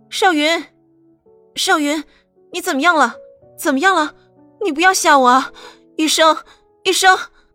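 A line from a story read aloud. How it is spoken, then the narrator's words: Startled scream. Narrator (Chinese): 刘倩蓉吓了一跳，尖叫一声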